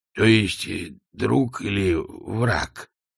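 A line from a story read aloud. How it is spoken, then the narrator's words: Mumbling. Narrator (Russian): промямлил он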